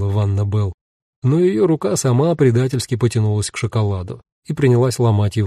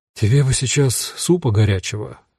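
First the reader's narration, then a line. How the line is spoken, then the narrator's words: Sigh. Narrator (Russian): вздохнул Руди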